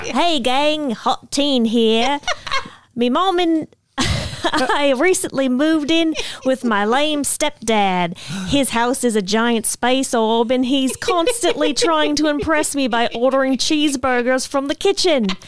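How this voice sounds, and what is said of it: Put-on Australian accent. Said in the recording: “read it in the impression of Tim, the boyfriend ... the Australian boyfriend ... this is my best Australian accent.”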